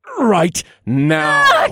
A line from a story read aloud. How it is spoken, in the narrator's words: Penelope screamed